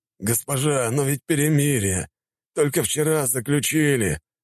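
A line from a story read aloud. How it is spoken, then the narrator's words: Commander moaning. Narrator (Russian): застонал командующий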